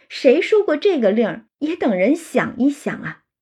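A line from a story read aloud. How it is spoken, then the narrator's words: Laughing. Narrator (Chinese): 宝玉就笑了，说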